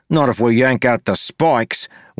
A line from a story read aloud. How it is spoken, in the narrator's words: Wayne snapped